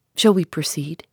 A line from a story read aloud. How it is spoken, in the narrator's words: he asked